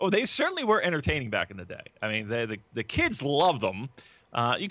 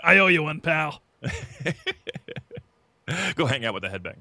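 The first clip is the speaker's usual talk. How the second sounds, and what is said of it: Imitates another person's voice. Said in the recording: “my Vince McMahon impression ... It's pretty good. It's pretty good.”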